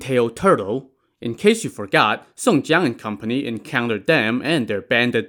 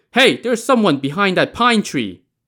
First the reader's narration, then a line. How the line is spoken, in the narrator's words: Shi Yong, the stone general, shouted